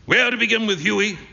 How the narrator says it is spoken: said Trevor

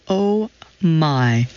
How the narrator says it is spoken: I stuttered as reality registered

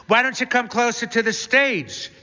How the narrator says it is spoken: She asks brightly

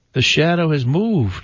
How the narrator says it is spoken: I cried

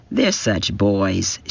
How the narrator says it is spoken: she always said in her placid voice

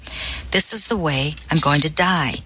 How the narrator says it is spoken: says Knight

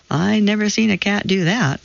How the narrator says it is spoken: said a woman, laughing

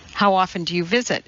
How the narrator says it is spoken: he asked

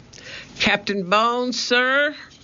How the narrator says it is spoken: he shouted

